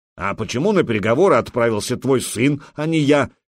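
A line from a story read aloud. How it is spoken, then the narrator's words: Angry. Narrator (Russian): сердито проговорил ярл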